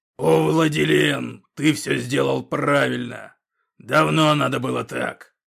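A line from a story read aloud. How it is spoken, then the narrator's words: Roaring laugh with grunts. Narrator (Russian): Смеясь и кряхтя, взревел Когтеклык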